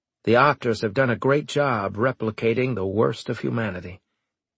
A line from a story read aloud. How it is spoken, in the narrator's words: he muttered